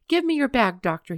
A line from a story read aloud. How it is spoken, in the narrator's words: he cried